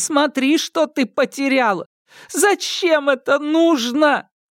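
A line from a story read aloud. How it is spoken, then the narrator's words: Sobbing. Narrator (Russian): Незаметно для себя она зарыдала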